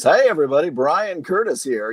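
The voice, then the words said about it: Honeyed radio announcer voice. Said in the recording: “honeyed announcer voice ... The golden voice comes out”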